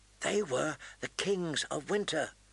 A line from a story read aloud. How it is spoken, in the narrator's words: Bran whispered